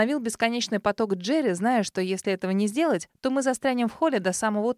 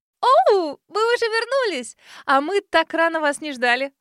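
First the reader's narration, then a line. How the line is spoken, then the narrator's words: Exclaiming. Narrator (Russian): воскликнула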